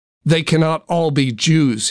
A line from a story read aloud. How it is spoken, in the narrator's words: shouted